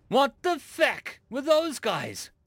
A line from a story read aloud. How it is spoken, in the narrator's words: someone exclaimed